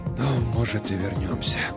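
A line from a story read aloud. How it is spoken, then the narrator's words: Barely audible whisper. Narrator (Russian): прошептал он так тихо, что я едва расслышал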